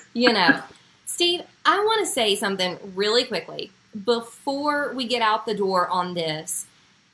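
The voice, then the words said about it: West Virginia accent. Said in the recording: “even from West, even in a West Virginia accent.”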